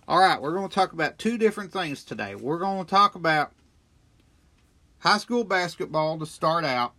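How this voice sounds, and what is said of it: Voice strained by a cold. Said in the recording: “I've been battling a little touch of a cold ... I think my voice is a little better”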